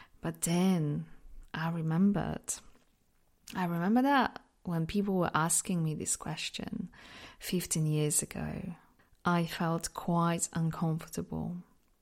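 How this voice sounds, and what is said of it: Mixed non-native English accent. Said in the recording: “I'm from Poland, but because I lived in so many different places, my accent is just a bit, it's just a mix of all different accents”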